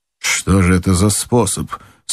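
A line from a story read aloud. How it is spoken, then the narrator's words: Plain. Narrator (Russian): спросил Кеннеди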